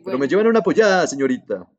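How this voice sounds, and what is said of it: Poor put-on Peruvian accent. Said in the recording (Spanish): “acento tan pichurrio ... tengo que trabajar más en mi acento peruano”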